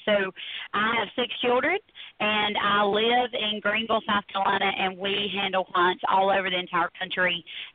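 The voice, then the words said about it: Pleasant noticeable regional accent. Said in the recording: “I love your accent. ... it would still be a good delivery. ... I love your accent.”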